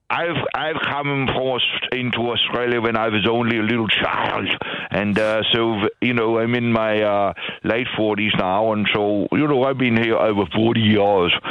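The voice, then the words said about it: Very strong accent. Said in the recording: “accent's very strong”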